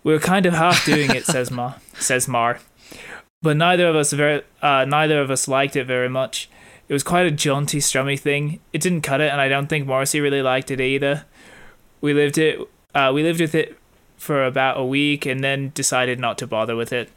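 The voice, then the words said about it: Imitates another person's voice. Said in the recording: “let me do that in the Marr accent... It's a very good impression.”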